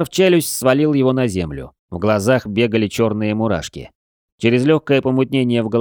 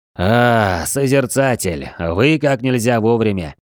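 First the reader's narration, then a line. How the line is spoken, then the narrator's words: Hoarse and breathless. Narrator (Russian): сипло сказал тяжело дышащий Рэндалл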